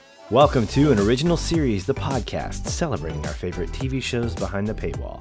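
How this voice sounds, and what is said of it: Unusually deep voice. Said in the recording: “one of your deep voice co-hosts tonight, due to a little bit of sickness”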